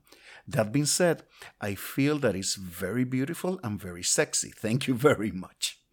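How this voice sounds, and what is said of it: Peculiar Puerto Rican-born English accent. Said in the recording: “my peculiar accent”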